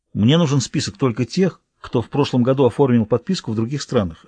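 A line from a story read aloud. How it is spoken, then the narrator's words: Plain. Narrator (Russian): ответил Хоук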